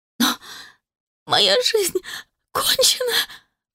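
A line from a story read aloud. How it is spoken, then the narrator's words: Sobbing hoarse girl. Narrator (Russian): Всхлипывая, просипела девушка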